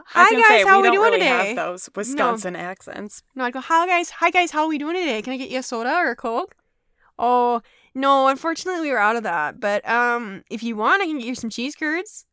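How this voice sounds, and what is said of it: Put-on mild Wisconsin accent. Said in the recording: “I slipped into a Wisconsin accent... Which I don't have... It's not quite as like Minnesota. It's not like quite as like Fargo, North Dakota... You got a little bit of the O's, a little bit of the milk, a little bit of the I's”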